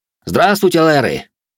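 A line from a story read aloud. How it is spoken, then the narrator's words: Loud greeting. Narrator (Russian): Рэй громко поздоровался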